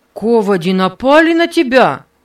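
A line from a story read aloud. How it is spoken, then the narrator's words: Loud question. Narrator (Russian): спросил Нева громким голосом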